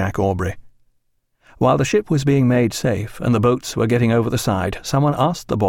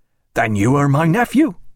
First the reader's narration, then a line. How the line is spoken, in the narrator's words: exclaimed Peter Wills